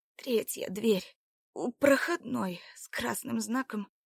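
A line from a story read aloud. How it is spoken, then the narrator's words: Barely conscious wheezing. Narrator (Russian): Лишь на миг придя в сознание, Марина хрипя произнесла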